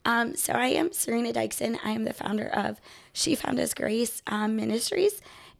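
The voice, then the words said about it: Voice sounds off, unwell. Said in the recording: “apologize for my voice. There's like seasonal stuff going”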